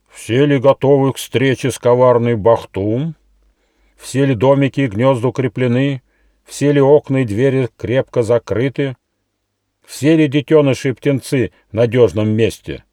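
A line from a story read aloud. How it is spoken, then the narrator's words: Loud question. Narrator (Russian): Председатель Совета, благородный олень, громко спросил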